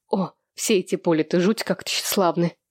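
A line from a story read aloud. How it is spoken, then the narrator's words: Irritated female reply. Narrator (Russian): раздраженно отозвалась Хэнни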